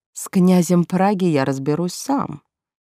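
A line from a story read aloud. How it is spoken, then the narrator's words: Predatory purr. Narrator (Russian): все так же хищно промурлыкал Лоренд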